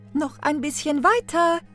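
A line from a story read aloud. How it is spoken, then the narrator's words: Called out. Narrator (German): rief die Stiefmutter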